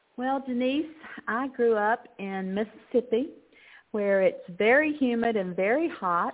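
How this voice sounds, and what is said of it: Southern American accent. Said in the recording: “I say I'm a Texan with a southern accent”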